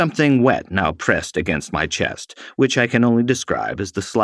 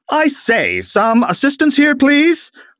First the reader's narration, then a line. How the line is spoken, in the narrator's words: I called out in hopes of being heard